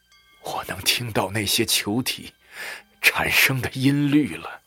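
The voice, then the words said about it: Trembling, shaky voice. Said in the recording (Chinese): “用颤抖的声音说”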